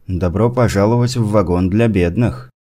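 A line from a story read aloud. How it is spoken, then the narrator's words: Calm addition. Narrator (Russian): другой голос спокойно добавил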